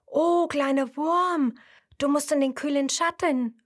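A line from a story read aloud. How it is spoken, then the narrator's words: Called out. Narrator (German): ruft Sternfunkel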